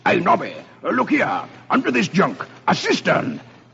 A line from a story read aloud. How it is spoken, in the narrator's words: Suddenly, Sir Percival exclaims